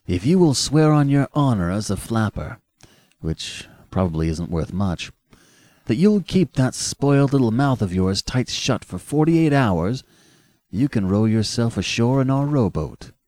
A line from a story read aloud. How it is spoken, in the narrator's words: said the young man cheerfully